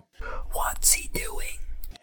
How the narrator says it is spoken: Harry whispered

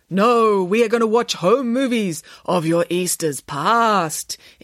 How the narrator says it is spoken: intoned Samantha, with as much gravitas as she could muster

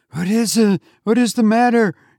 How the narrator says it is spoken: She cried

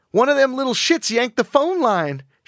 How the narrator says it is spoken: she shrieked

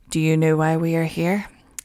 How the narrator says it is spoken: Officers approached and quietly asked him

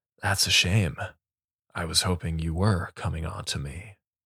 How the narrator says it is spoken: Carl leaned forward, a breath's distance from Aiden's face, and whispered

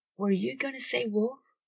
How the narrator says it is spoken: She said it so softly it was almost a whisper

